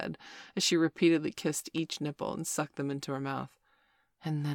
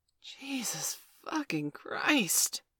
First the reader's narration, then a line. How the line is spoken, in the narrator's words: I gasped in true admiration